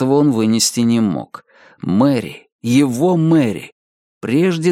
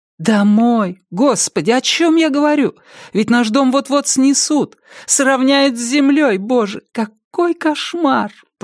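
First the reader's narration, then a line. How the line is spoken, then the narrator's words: Moaning. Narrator (Russian): простонала она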